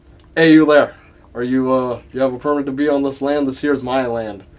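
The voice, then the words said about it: Put-on rural American accent. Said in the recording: “I can't get out of this accent no more now ... this type of accent”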